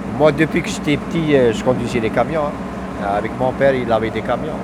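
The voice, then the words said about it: Algerian accent in French. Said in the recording (French): “t'as l'accent algérien”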